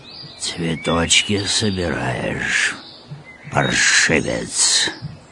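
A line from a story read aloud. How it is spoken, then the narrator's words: Hoarse wheeze. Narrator (Russian): прохрипел мудрейший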